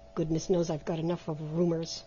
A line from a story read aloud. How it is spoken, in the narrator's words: he muttered to himself